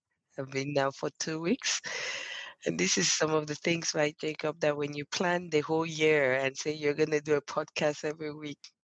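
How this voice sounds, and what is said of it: Sick, under-the-weather voice. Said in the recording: “As you can tell from my voice, I'm a little under the weather.”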